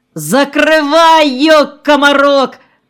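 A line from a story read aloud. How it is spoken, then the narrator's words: Shouting. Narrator (Russian): крикнул Бардыкин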